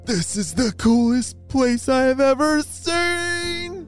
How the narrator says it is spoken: shouted Cedar

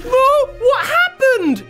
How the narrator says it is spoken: she cried

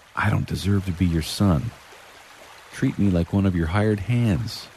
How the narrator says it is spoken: you plead with him

